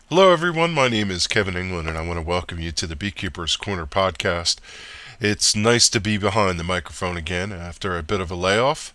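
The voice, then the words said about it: Slightly congested, stuffy voice. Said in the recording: “I've got a little bit of a cold”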